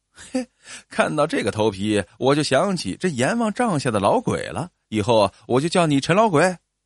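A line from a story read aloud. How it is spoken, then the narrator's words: Teasing laughter. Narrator (Chinese): 赵光嬉笑道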